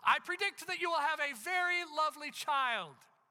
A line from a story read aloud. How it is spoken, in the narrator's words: she began in a loud voice